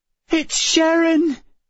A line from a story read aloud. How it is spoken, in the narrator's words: Emma cried